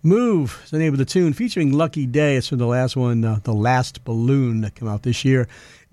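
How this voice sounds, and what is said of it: New England accent. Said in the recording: “my New England accent.”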